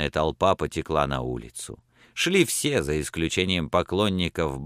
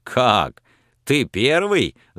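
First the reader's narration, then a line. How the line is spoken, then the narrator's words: Laughing. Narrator (Russian): засмеялся Пламенный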